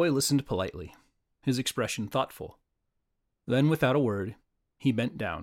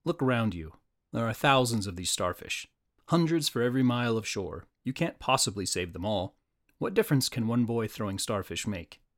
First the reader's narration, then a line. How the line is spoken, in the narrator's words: he said kindly but firmly